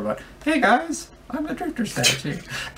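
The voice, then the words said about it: Imitates a game character's voice. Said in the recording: “Great Drifter impression,”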